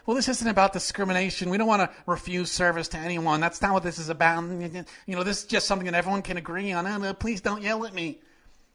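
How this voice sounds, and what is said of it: Impression of a timid Republican. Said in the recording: “that's my Republican impression, by the way. Again, just very, very, I should get paid as an impressionist.”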